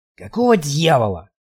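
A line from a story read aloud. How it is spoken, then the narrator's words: Hoarse rasp. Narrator (Russian): прохрипел я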